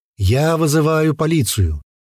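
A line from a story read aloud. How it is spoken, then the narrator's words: Loud. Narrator (Russian): громко произнес Матвей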